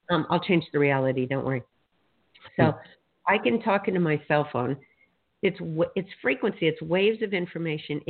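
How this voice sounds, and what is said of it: Hoarse, strained voice. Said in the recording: “my voice is really shot today”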